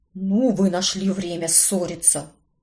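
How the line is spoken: Displeased grumble. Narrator (Russian): буркнул недовольный Картер

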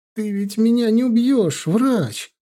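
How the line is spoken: Whimpering. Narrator (Russian): проскулил Митя

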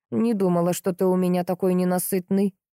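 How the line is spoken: Silent mental grumble. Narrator (Russian): заворчала на него мысленно сыщица

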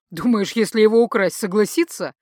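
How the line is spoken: Laughing. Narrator (Russian): засмеялся Майрел

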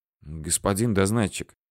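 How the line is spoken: Quiet call. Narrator (Russian): тихо окликнул меня жандарменыш

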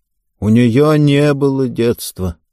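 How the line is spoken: Sad old woman. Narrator (Russian): грустно добавила бабушка

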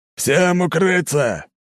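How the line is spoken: Roared through megaphone. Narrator (Russian): взревел в мегафон капитан судна

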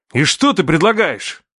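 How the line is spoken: Angry shout. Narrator (Russian): закричал, со злостью

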